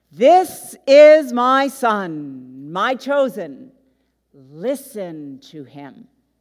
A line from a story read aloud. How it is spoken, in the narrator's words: A voice thunders out